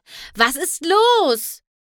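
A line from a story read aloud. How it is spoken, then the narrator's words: Shouted. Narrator (German): schrie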